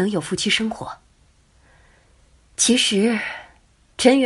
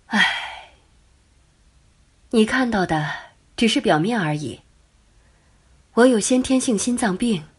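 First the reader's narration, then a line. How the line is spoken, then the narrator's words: Sigh, then flat. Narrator (Chinese): 刘梅忽然叹了口气，淡淡的说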